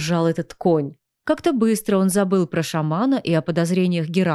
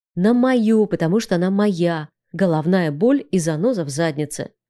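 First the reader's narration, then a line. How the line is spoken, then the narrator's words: Snapping retort. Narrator (Russian): огрызнулся я в ответ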